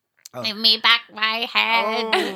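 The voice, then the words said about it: Hoarse, croaking ghostly voice. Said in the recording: “In a hoarse and croaking tone ... A hoarse and croaking tone”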